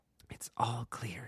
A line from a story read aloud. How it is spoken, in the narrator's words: he whispered